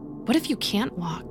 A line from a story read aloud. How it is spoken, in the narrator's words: Amelia retorted hastily